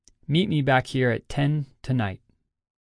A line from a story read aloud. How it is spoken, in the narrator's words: Akira calmly responded